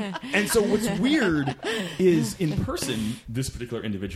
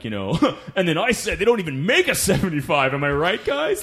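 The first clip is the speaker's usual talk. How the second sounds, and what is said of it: Schmucky stand-up comedian voice. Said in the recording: “great impression of a schmucky comedian”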